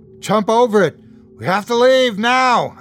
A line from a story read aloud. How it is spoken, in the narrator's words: I yelled